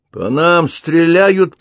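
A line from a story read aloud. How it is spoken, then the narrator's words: Shouting. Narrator (Russian): прокричал Крейг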